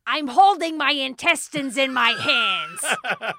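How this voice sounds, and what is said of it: Imitates another person's voice. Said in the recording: “the only impersonation I can really do of Gilbert Gottfried is of this person's impersonation of Gilbert Gottfried”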